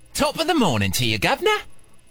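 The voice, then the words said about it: Weak attempt at British accent. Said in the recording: “Can you do a British accent? ... I can try to do it. ... No, all wrong.”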